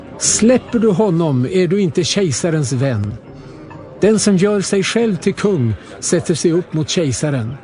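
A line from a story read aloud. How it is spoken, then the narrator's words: Crowd shouting. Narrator (Swedish): judarna skrek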